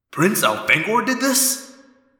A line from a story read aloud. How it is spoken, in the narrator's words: The TO asked in an odd voice